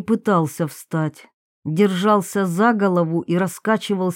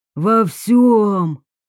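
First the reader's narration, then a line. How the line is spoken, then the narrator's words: Whining. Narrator (Russian): Он заскулил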